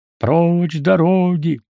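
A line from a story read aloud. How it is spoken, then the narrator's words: Shouting crowd. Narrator (Russian): кричала вокруг него толпа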